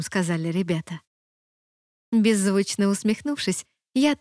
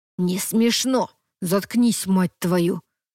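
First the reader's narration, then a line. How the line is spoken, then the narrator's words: Quiet hiss. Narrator (Russian): тихо прошипел Тейлор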